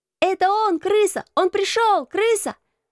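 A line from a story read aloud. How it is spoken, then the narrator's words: Crowd shouting. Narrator (Russian): закричала рота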